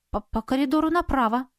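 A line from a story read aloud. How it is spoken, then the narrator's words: Confused young woman. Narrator (Russian): растерянно произнесла девушка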